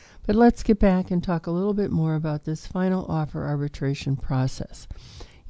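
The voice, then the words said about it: Sick-sounding voice with a cold. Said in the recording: “Please excuse my voice this afternoon. I'm obviously coming down with a cold.”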